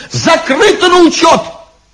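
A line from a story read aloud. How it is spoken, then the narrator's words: Sudden shout amid commotion. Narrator (Russian): Посреди всеобщей сумятицы он вдруг крикнул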